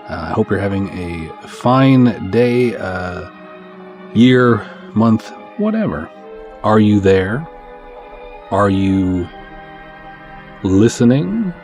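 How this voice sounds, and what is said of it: Congested, nasal voice. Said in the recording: “A little bit of a head cold. I don't know if you can hear it in my voice, but there's definitely something a-brewing in my sinuses... extra nasally”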